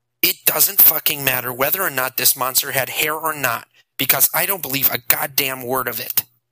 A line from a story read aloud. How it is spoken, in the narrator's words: Dave said in a flat, angry voice